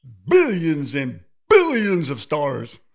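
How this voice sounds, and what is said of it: Imitates another person's voice. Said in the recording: “my Carl Sagan impression”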